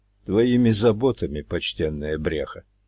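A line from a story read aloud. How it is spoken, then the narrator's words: Calm reply. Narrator (Russian): Также спокойно ответил отец барсук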